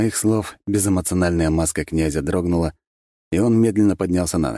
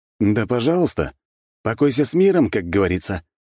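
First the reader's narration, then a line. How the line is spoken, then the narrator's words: Smirking grunt. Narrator (Russian): хмыкнул я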